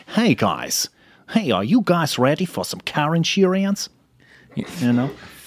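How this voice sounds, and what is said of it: Attempted American accent. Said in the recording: “sound American? I'm trying to sound more American.”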